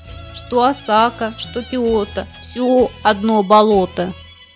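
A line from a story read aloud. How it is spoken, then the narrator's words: Sad frog voice. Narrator (Russian): осакская лягушка грустно сказала своим лягушатам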